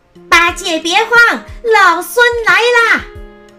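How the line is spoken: Loud shout. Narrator (Chinese): 悟空高声的叫道

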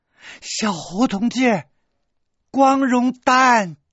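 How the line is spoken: Sudden loud shout. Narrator (Chinese): 洛宁突然想到了什么，对我大声喊

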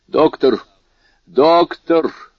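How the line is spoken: Exclaimed. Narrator (Russian): воскликнул он

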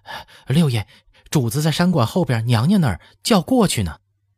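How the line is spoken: Panting, flustered servant. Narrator (Chinese): 太监补替一溜小跑过来，颜色不是颜色，喘着白气说道

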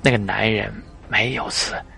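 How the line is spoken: Cold. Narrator (Chinese): 他冷冷说道

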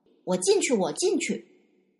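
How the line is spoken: Loud eager shout. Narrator (Chinese): 一个石猴，应声高叫道

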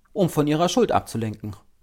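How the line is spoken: Curt, brusque retort. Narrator (German): schoss es schroff aus dem Mund des Kommissares empor

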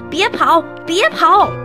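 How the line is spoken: Shouting. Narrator (Chinese): 大伙儿嘴里还大喊着

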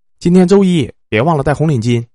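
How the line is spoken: Faint distant calling. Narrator (Chinese): 隐约的听到我妈在喊

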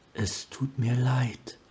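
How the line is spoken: Whisper across water. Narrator (German): flüsterte sie über das Wasser

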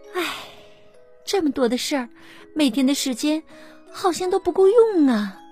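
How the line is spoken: Sighing. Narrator (Chinese): 他叹了口气说

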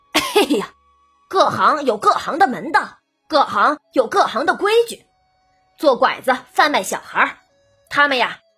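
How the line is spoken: Knowing laugh. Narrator (Chinese): 门子了然于胸的笑了笑

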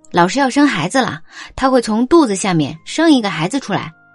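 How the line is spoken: Loud. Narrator (Chinese): 我大声说

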